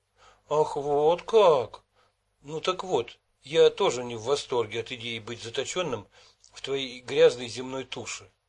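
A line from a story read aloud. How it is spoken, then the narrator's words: Exclaiming. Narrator (Russian): воскликнул я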